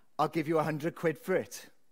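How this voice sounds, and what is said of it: Thick Welsh Valleys accent. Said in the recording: “in a thick Valleys accent”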